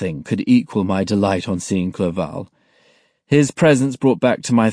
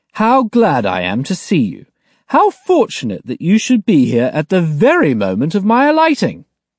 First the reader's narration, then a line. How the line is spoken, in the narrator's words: exclaimed